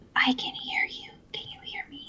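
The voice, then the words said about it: Stage whisper. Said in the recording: “I'm doing a sort of stage whisper”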